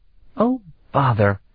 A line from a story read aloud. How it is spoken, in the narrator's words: Afriel exclaimed peevishly